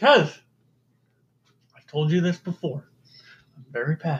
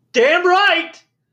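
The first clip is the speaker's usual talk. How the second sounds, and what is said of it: Yelling. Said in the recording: “Why are you yelling?”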